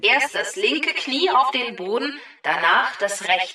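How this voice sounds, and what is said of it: Stern, unfriendly commanding voice. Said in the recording (German): “du klingst irgendwie so anders. ... Nicht so nett wie sonst.”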